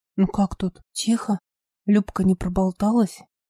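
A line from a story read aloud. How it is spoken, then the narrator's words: Whisper. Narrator (Russian): прошептал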